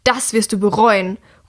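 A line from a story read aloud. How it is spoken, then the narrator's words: Shouting over the din. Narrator (German): ruft über den Tumult hinweg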